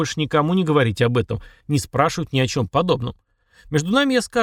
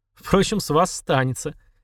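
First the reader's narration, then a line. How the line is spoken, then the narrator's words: Giggling. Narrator (Russian): хихикнул магик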